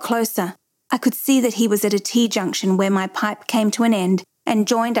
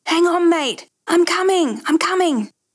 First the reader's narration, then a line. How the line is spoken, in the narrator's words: was yelling to him